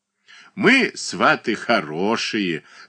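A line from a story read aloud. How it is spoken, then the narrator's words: Laughing. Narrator (Russian): засмеялась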